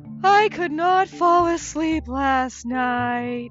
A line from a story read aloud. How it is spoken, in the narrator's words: Bob yawns